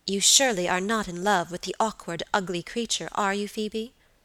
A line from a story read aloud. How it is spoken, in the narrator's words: asked my lady sharply